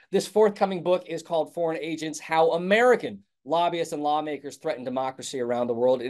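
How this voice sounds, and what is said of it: Thick American accent. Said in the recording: “my thick American accent”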